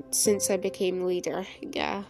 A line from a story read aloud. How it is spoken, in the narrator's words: she murmured